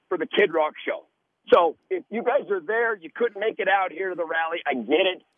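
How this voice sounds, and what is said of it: Hoarse, strained voice. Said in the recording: “That's why I've lost my voice, because I've been screaming and yelling”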